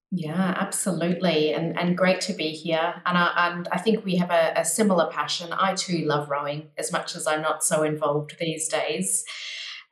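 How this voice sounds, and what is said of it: Australian accent. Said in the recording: “I grew up mostly in Australia, as you can probably tell by the accent”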